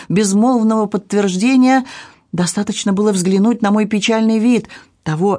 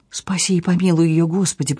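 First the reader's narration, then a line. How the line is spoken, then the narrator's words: Murmured. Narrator (Russian): пробормотала Люси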